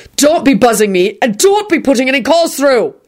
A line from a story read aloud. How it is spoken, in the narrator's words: he shouted